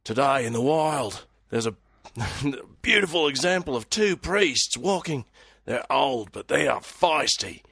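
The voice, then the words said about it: Bad stereotypical Australian accent. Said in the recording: “An Aussie accent. ... A bad, stereotypical, ... Nowhere near Perth accent.”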